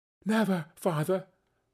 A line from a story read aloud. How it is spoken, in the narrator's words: cried they all